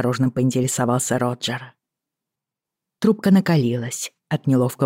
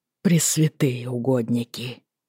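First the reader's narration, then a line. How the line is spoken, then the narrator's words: Breathed out. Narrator (Russian): выдохнул он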